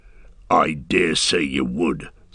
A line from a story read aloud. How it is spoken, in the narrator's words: snarled Ugluk